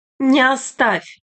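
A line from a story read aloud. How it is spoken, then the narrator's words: Crowd shouting. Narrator (Russian): кричали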